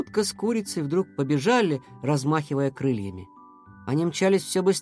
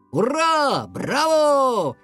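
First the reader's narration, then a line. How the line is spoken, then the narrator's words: Shouting in unison. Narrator (Russian): кричали в один голос Лео и Паскаль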